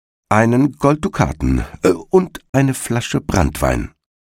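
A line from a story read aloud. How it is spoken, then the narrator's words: Plain. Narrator (German): sagte der Igel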